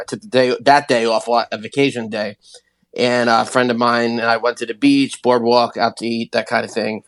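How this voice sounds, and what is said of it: Hoarse, congested voice. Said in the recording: “I started losing my voice right then and there ... cold allergy uh, type deal ... the nose and the throat ... not being able to talk”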